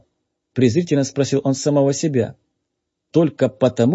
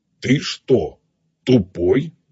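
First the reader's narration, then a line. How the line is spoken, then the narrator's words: Menacing question. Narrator (Russian): грозно спросил переводчик-телепат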